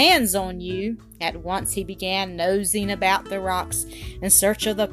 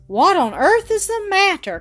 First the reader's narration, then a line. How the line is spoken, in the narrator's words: cried Jean